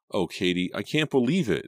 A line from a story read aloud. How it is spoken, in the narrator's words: Stine cried